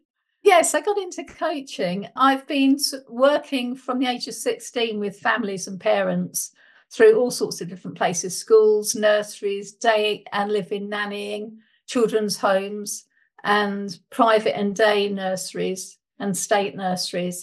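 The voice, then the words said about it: British accent. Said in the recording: “as you can hear, I've got a British accent, so I'm from the UK.”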